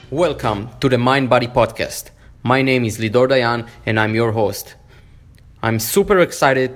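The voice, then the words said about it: Israeli-accented English. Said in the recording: “with the sexy Jewish accent”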